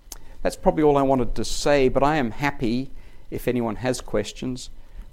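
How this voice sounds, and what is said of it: Heavy non-native accent. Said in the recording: “I probably should have had an interpreter here for my accent.”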